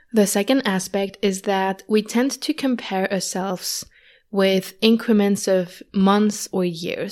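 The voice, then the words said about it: Slightly odd voice from a cold. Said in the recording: “my voice sounds a bit weird, I still have a bit of a cold”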